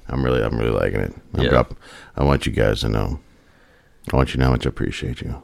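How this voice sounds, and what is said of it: Unusually deep, lowered voice. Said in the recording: “I'm having a very good deep voice tonight ... dropping my octaves ... I think we're both just very fucking tired.”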